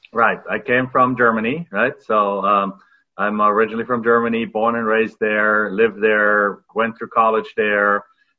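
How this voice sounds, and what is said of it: German accent. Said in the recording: “everybody can probably hear by your accent that you haven't been in this country your entire life”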